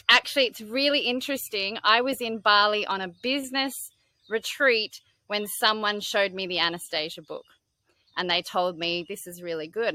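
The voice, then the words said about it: Australian accent. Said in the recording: “I'm Australian, if you can't connect the accent”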